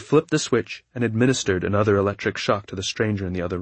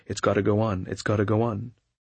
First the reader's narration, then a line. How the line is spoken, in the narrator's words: muttering to himself